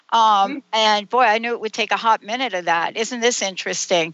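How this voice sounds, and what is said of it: Southern American accent. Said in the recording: “it would not take me long to get my Southern accent going on here”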